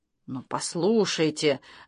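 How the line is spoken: Eager excited whisper. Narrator (Russian): зашептал папа с горящим взором

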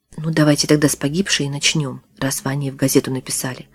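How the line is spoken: Gentle suggestion. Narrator (Russian): мягко предложил журналист

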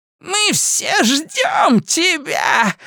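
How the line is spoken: Witch shouting. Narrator (Russian): закричала ведьма

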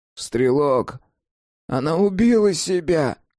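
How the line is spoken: Hoarse cat. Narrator (Russian): прохрипел кот

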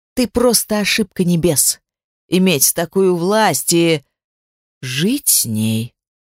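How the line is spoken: Sudden forceful growl. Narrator (Russian): Внезапно рыкнул Кростис так, что Даэрис пошатнулся

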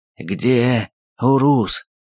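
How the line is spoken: Hoarse wheeze. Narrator (Russian): прохрипел он

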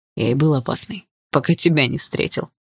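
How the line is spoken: Smirking grunt. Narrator (Russian): хмыкнул Дима

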